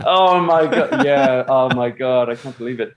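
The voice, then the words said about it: Put-on American accent. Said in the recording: “anytime you want to sound like an asshole, you yeah, use your American accent.”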